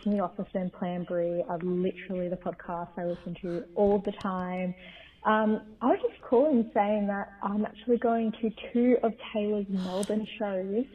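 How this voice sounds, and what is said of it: Australian accent. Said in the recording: “Oh my God, accent, I didn't even notice.”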